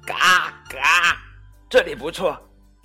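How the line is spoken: Duck quacking. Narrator (Chinese): 马拉先生嘎嘎叫道

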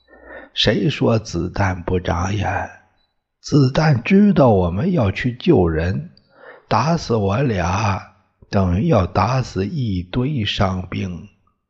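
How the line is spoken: Laughing. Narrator (Chinese): 他笑了

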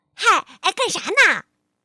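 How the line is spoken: Loud greeting. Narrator (Chinese): 泰奇大声的向国王打招呼

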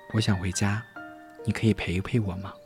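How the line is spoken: Quiet small voice. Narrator (Chinese): 米莉声音很小地说

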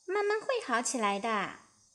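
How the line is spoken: Sighing dragon mother explaining. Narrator (Chinese): 火龙妈妈叹了口气，解释道

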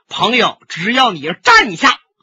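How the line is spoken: Projected forceful shout. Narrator (Chinese): 李寻欢提底气，把声音送出去，喊喝一声

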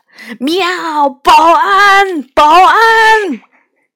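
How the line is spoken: Cat yowling loudly. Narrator (Chinese): 野猫祥子在大声叫着

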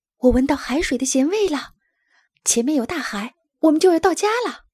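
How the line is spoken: Excited shout. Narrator (Chinese): 拉尔斯激动地喊起来

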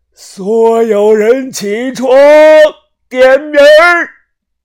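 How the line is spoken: Loud. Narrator (Chinese): 大声的说道

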